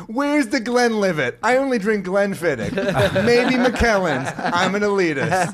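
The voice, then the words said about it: Imitates another person's voice, drunk. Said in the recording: “This is my impression of ... when he's drunk ... He's like a robber baron from the 18th century”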